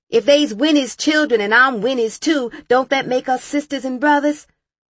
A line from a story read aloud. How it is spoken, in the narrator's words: Mama shouted at me